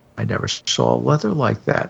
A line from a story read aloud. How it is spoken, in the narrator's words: I murmured